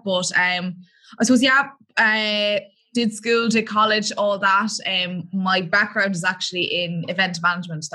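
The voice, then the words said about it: Irish accent. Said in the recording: “everyone could probably tell from my accent, I am from Ireland”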